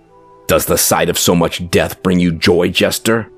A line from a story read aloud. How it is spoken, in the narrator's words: Vicar snarled